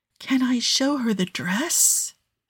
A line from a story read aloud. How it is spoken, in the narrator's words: She whispers